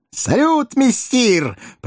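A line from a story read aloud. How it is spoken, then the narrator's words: Two voices shouting. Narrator (Russian): прокричала неугомонная парочка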